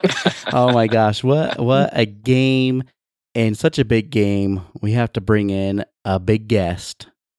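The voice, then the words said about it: Hoarse, partly lost voice. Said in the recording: “I'm still a little hoarse. Still don't have my my whole voice back.”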